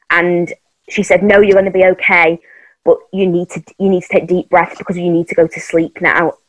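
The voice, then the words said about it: Emotional, choked-up voice. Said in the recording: “Sorry, I'm getting emotional talking about it.”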